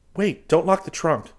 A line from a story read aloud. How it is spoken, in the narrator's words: Chris exclaimed